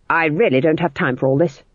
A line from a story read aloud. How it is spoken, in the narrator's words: snapped Granny, trembling